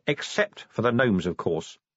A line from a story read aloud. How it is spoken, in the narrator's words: said Vimes coldly